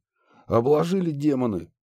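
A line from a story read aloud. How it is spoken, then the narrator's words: Snort. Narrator (Russian): фыркнул Муха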